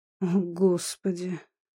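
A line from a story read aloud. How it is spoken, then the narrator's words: Tired. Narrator (Russian): устало сказал Ильинский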